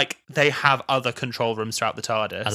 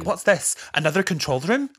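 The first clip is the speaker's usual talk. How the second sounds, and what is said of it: Put-on accent imitating Amy. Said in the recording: “I love how you slipped into that accent.”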